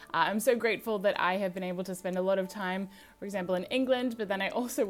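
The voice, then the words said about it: American-sounding accent. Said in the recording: “I do sound American ... my accent does sound American”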